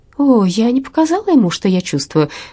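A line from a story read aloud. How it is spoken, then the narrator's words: Cheerful. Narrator (Russian): весело сказала Верина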